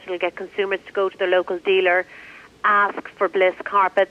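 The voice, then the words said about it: Irish Dublin accent. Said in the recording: “you obviously have an accent. ... I'm from Ireland, Dublin. ... I'm a Dub.”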